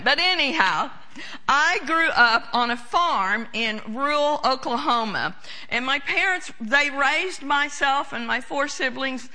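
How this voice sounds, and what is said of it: Noticeable regional accent. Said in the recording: “Why does she talk funny, that accent or whatever?”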